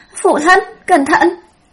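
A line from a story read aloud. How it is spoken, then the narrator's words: Panicked cry. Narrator (Vietnamese): Tây Lương Mạt hoảng hốt kêu lên một tiếng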